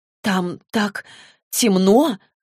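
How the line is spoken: Strained. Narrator (Russian): выдавила Клэри

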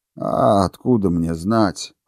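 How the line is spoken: Irritated, dismissive. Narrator (Russian): раздраженно отмахнулся приор

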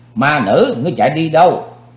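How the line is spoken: Furious young woman shouting. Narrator (Vietnamese): Thiếu nữ giận cùng tràn thấy đối phương bỏ chạy, dục phóng mình tới ngăn cản trước mặt và hét

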